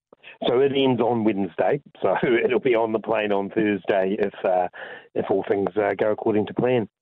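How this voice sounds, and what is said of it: Congested voice. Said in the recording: “You might hear in my voice, I've still got a little bit of congestion”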